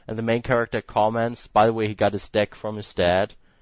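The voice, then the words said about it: Non-native accent, deck sounds like dick. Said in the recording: “You're aware you speak with an accent. ... your accent makes some words sound like other words. And the way you say deck is similar to dick.”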